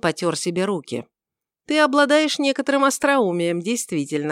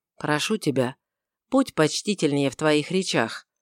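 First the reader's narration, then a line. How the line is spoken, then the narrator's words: Soft interruption. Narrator (Russian): прервал его Варавва мягко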